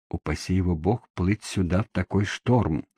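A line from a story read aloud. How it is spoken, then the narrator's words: Whispered. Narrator (Russian): прошептал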